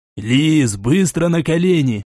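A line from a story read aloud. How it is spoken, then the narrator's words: Hiss. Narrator (Russian): прошипел Гвоздев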